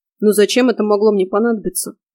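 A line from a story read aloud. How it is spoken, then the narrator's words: Surprised deep bass. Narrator (Russian): удивленно пробасил Фрей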